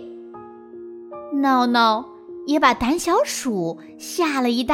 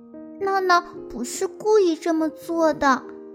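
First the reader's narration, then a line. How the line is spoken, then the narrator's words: Sighing. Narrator (Chinese): 小刺猬也叹着气说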